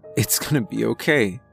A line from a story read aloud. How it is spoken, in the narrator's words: I said in an attempt to be calming, even though my voice was shaking and cracking, as I watched my sister bleed out